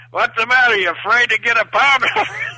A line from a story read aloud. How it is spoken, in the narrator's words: the people in the audience are actually yelling at Carrie